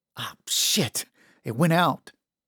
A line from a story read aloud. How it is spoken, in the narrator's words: stuttered